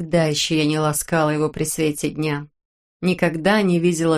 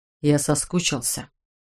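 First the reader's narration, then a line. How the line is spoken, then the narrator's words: Strained, forced out. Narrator (Russian): выдавил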